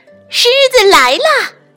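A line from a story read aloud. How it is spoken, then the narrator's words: Two voices yelling. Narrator (Chinese): 两个家伙大叫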